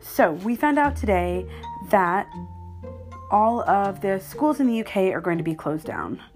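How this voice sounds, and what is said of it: American accent. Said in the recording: “my accent. People are like, oh, she's Canadian. Just kidding. No, I am an American”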